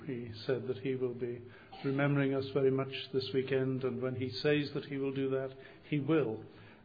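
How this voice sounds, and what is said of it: Floridian accent. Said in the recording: “a Floridian accent”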